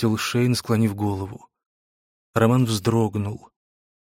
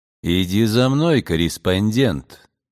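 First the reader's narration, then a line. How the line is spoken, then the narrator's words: Plain. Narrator (Russian): сказал Дакар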